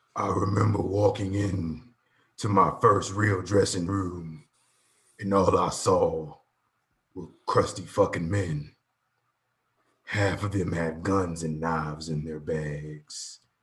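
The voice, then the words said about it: Impression of The Undertaker. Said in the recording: “gonna do the Taker voice.”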